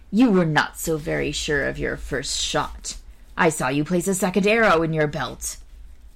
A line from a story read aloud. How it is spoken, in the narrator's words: Gessler said in a surly tone to Tell